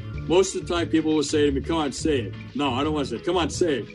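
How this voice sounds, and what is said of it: New York accent. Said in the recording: “a real New York experience getting to talk to you. They love my accent.”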